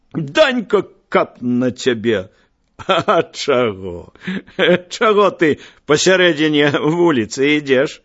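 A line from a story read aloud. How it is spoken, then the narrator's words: Smiling speech. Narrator (Belarusian): усміхнуўся Данька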